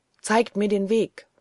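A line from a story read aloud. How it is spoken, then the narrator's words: Plain. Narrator (German): sagte er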